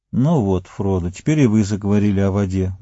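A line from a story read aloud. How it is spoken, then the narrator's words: Sad smiling tone. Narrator (Russian): грустно улыбнулся Сэм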